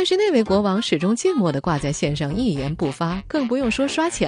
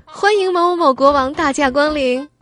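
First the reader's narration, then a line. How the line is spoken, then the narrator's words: Formal, loud, repeated. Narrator (Chinese): 可可郑重的大声说了好几遍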